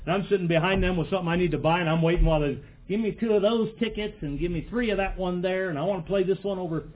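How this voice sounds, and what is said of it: Slipping into a redneck accent. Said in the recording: “Am I getting a redneck accent? I don't mean to do that.”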